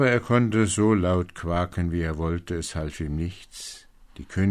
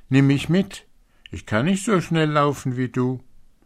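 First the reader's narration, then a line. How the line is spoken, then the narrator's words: Frog calling out. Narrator (German): rief der Frosch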